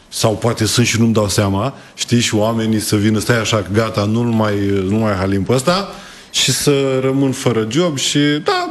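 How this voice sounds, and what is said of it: Slight regional Romanian accent. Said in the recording (Romanian): “Ți-ai păstrat accentul, n-a plecat cu totul. ... accentul în Buzău”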